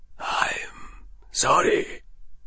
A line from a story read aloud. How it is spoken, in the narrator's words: whispered